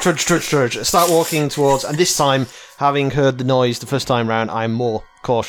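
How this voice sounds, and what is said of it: Usual voice. Nothing is said of it.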